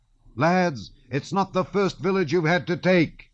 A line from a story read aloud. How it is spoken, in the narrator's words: cried he